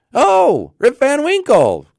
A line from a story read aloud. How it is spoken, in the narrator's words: cried two or three